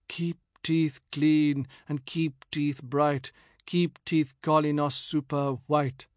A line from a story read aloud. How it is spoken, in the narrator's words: Elegiacally, I murmured under my breath